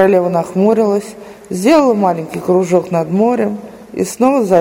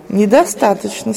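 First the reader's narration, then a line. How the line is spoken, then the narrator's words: Plain. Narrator (Russian): сказала она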